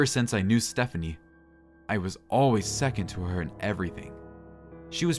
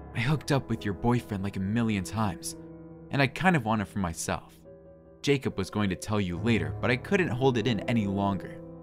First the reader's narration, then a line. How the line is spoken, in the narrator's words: whispered in my ears